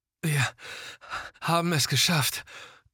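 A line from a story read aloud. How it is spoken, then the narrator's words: Man panting, rattling breath. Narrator (German): keuchte der Mann in dem roten Daunenanzug, der mit rasselndem Atem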